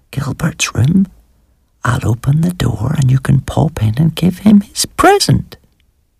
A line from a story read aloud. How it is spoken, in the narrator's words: Melton whispered